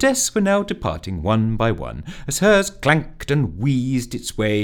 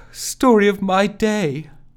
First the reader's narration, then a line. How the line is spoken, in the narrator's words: a meek smile, half a shrug, and a sighed